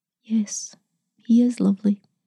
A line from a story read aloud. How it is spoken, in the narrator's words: whispered